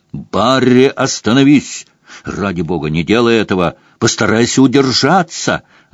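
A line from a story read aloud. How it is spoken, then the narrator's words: Desperate shout. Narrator (Russian): отчаянно крикнул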